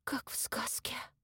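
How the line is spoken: Whisper aloud. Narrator (Russian): прошептала Маша вслух

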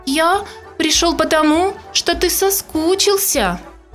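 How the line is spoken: Squeaking. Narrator (Russian): еще раз запищал он

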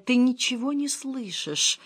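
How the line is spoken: Hoarse whisper. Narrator (Russian): осипшим голосом прошептал

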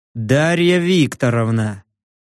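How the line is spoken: Muffled hiss through mask. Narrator (Russian): Из-под боевой маски мой голос звучал приглушенным шипением

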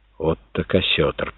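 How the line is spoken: Stunned whisper. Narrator (Russian): потрясенно прошептал Тонолан

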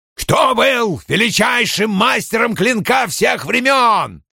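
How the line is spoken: Raised voice, near shout. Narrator (Russian): Страж возвысил голос, почти закричав

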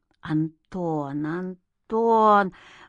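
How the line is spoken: Muttering. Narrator (Russian): бормотал Игнат

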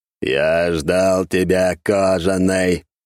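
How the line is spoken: Booming mechanical voice everywhere. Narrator (Russian): прогремел механический голос, который зазвучал разом во всем пространстве

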